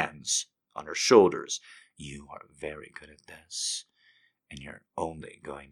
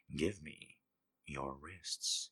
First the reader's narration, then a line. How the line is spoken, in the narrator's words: he murmured